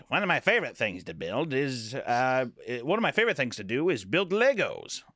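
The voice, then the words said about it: Old-fashioned businessman voice. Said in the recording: “I sound like a fucking nerd... back in the day, it's like businessmen just sounded... that accent... Imagine the same voice”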